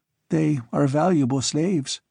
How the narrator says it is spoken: murmured the girl

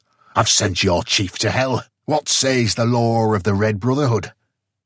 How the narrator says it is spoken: he roared

